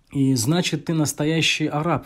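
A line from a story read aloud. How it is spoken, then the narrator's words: Exclaimed. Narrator (Russian): воскликнула Умму Анмар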